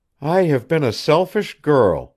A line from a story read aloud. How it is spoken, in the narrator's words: Janet murmured